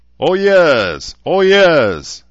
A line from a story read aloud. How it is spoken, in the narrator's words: some of the people in the crowd shouted